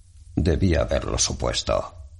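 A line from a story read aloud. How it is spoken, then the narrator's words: Grumbling. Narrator (Spanish): rezongó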